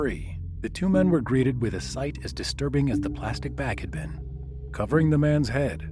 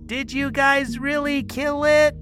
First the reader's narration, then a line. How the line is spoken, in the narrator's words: Janelle shouted over the storm